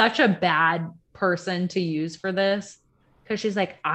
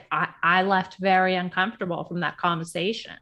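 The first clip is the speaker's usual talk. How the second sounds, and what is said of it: Put-on nasal Southern accent. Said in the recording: “I don't know why I hit that old South accent ... you almost sounded like her ... you just have to give it that nasal”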